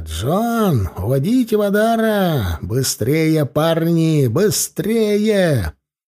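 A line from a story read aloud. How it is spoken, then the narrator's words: Broken shouting. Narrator (Russian): я уже кричал обрывками слов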